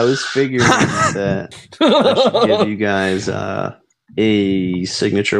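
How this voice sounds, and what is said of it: Usual voice. Nothing is said of it.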